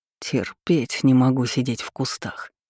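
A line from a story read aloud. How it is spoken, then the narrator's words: Strained growl. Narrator (Russian): рыкнул, руки которого тряслись от перенапряжения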